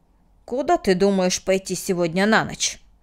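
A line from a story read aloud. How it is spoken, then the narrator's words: Sharp question. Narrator (Russian): резко спросил Мартин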